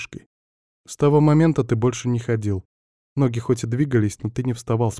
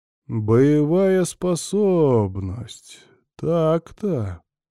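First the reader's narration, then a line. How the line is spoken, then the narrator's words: Drawn-out drawl. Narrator (Russian): протянул я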